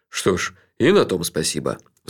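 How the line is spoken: Sighing. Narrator (Russian): вздохнул Джуфин

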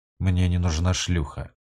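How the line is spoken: Cold. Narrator (Russian): холодно произнес Корриган

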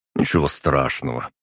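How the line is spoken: Dismissive snort. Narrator (Russian): хмыкнул я в ответ

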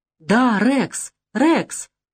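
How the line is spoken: Joyful yell. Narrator (Russian): завопил радостно парень

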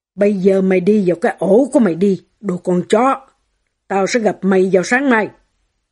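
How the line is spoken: Menacing. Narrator (Vietnamese): chồng bà nói bằng giọng đầy đe dọa

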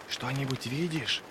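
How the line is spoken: Whisper from behind. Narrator (Russian): Раздался за спиной шепот Джизали

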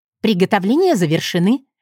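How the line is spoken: Cheerful announcement. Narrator (Russian): весело объявила я Полине

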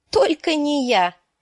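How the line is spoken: Exclaiming. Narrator (Russian): воскликнула Арья

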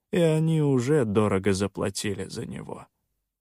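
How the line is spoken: Calm. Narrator (Russian): спокойно отозвался Соленый

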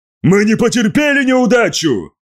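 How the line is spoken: Shout. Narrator (Russian): выкрикнул тот

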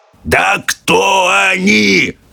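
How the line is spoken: Yelling. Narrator (Russian): заорал президент

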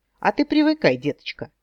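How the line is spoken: Joyless snort. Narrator (Russian): Итхан хрюкнул, но как-то совсем не весело

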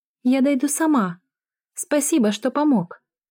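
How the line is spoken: Squeaky voice. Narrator (Russian): пискнула Кэти

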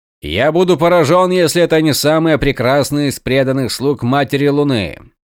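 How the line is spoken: Loud commander. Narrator (Russian): громко заявил полководец

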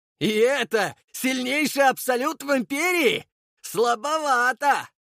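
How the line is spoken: Mocking shout through fog. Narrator (Russian): насмешливо крикнул Водопьянов сквозь туман

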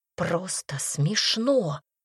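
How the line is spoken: Quiet growl. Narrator (Russian): тихо прорычала

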